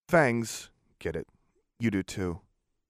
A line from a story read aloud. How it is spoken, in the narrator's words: I said sadly too, but I was still upset